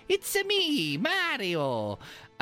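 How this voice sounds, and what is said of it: Mario cartoon voice impression. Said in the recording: “do me a Mario impression ... it's his voice”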